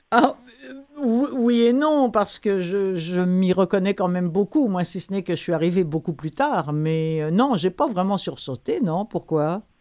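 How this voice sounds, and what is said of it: French accent from France. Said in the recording (French): “avec votre accent, j'imagine que vous êtes originaire de France.”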